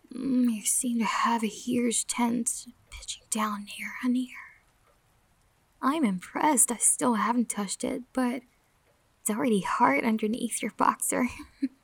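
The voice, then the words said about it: Intimate whisper close to ear. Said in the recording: “Does me whispering in your ears like this”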